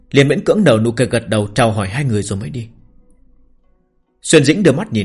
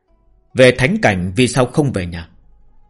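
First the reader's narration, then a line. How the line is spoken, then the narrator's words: Cold voice. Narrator (Vietnamese): ông ta vẫn cất giọng lạnh lùng nói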